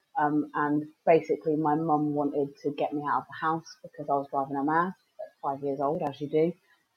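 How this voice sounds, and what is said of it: Somerset West Country English accent. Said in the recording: “I live in Somerset, which you can probably tell by my accent”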